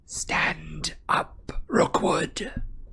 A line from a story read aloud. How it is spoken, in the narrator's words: whispered Harry